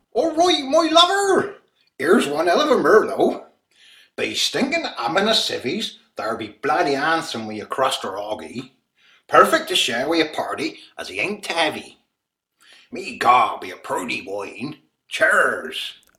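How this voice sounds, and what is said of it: Put-on Somerset accent. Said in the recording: “It's a Somerset accent.”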